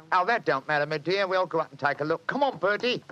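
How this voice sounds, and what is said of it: Put-on Cockney accent. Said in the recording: “My Cockney accent doesn't compare with yours.”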